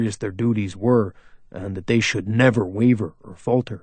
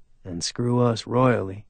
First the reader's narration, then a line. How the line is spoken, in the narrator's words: Jess said under his breath